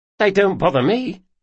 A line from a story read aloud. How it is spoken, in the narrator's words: said Locke quickly